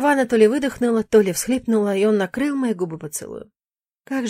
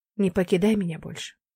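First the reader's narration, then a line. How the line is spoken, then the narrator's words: Very quiet. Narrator (Russian): тихо-тихо добавил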